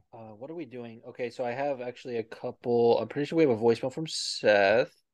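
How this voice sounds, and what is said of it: Raspy voice. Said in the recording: “you can already hear my voice is getting raspy.”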